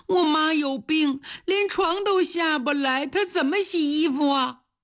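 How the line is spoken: Crying child. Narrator (Chinese): 哭了，用小手一边擦眼泪一边说

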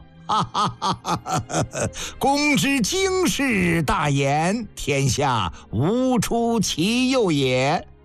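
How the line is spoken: Loud laughter. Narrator (Chinese): 范雎大笑

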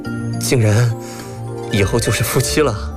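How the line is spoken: Stammering. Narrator (Chinese): 回过神来，结结巴巴地说道

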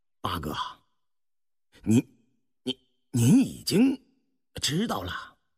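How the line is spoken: Stammering. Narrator (Chinese): 胤禔方结结巴巴说道

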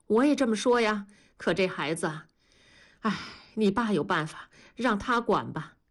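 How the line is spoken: Sighing. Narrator (Chinese): 燕妮叹着气说

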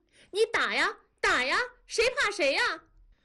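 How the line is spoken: Wild screaming girl. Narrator (Chinese): 女孩狂叫

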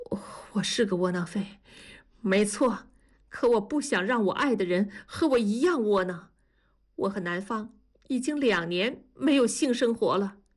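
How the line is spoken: Trembling voice. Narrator (Chinese): 苏哥声音颤抖地说

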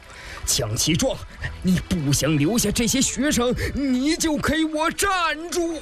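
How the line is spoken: Angry shout. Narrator (Chinese): 钱伯叔 怒喝道

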